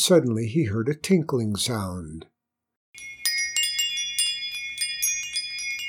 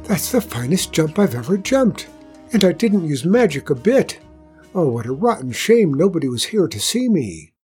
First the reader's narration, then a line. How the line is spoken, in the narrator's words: panting, and shouted